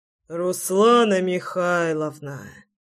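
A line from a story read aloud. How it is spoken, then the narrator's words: Sighed. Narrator (Russian): вздохнул Шульц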